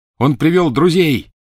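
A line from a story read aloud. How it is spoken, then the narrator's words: Shout. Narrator (Russian): крикнул Гарри остальным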